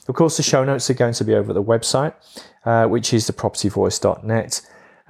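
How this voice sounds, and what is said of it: Slightly hoarse voice. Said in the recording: “hoarseness in my voice, it's because I had 8 back-to-back one-to-ones and a mastermind dinner event last night and a lunch appointment as well. So I'm a little bit hoarse”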